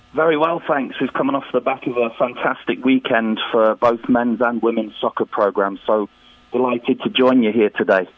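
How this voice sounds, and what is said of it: Strong English accent. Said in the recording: “the greatest English accent probably in the history of this program”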